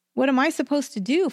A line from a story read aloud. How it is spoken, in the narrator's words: Francine cried